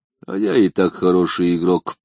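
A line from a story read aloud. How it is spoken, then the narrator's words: Calm reply. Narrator (Russian): спокойно ответил Темучин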